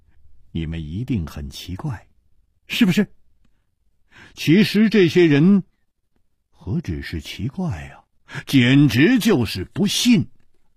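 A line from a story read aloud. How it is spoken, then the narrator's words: Smiling. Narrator (Chinese): 楚留香笑了笑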